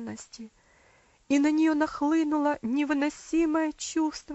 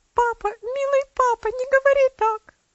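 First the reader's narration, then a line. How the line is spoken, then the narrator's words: Sobbing exclamation. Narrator (Russian): воскликнула она, разрыдавшись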